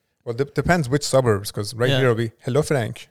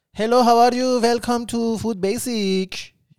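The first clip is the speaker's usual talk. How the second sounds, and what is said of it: Imitated Persian-accented cashier greeting. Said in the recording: “the accent ... everyone's Persian”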